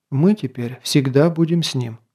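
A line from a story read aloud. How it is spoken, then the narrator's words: Calm. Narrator (Russian): спокойно сказала Эмальза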